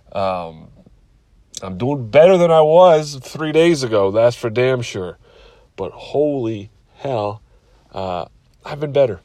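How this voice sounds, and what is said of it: Sick, under-the-weather voice. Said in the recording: “I don't know if you can tell by my voice, but I'm a little under the weather”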